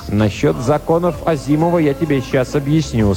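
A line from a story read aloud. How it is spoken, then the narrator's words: Plain. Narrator (Russian): сказал дикий робот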